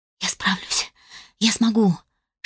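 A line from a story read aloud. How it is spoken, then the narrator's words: Self-encouraging whisper. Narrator (Russian): шептала сама себе, пытаясь хоть как-то приободриться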